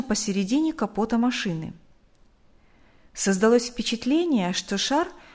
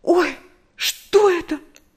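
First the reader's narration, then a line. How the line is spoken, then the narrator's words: Frightened cry. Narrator (Russian): В испуге вскрикнула Нэнси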